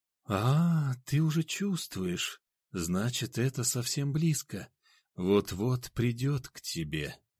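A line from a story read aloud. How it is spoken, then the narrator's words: Sinister whisper, eerie laugh. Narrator (Russian): зловеще прошептала она и не по-детски захохотала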